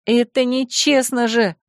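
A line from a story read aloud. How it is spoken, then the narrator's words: Angry breathy exclamation. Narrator (Russian): сердито выдохнула я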